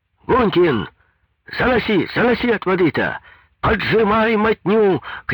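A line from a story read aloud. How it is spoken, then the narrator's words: Fussy shouting. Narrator (Russian): кричал и суетился Стенин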